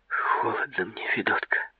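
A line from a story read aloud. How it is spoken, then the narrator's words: Whisper, teeth chattering. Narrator (Russian): Стуча зубами, прошептала девушка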